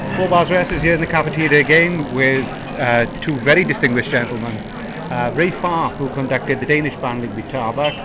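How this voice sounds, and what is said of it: Welsh accent. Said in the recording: “That's the Welsh accent”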